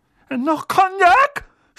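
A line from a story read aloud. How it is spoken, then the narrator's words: Pale, frightened shout. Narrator (German): schrie Onkel Vernon, der käseweiß geworden war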